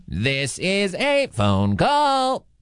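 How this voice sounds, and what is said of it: Robot voice. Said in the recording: “doing a little robot voice.”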